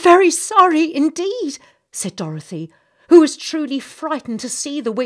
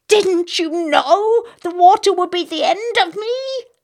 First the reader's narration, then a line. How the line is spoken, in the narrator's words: asked the witch in a wailing, despairing voice